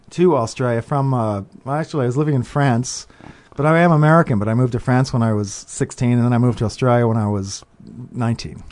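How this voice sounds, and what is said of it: Slight Australian accent. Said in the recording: “I still speak with an Aussie accent, sort of. ... I caught that.”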